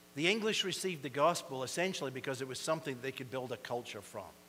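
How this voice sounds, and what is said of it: Scottish accent, somewhat fast speech. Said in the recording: “I do have a bit of an accent. Sometimes people tell me I speak a bit fast ... They think I'm an Irishman. They hear an accent ... we Scots”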